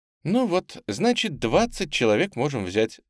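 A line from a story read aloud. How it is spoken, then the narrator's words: Cheerful address. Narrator (Russian): весело обратилась к беспризорникам Тамара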